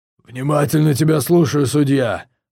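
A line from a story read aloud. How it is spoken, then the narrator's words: Growled. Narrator (Russian): рыкнул Ракхар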